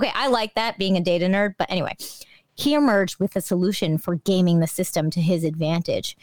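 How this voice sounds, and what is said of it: Usual voice. Nothing is said of it.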